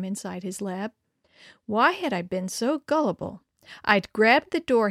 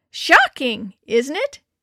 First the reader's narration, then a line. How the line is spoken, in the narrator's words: he'd shrieked